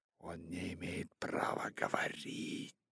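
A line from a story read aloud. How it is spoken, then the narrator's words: Whisper. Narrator (Russian): прошептала Багира Маугли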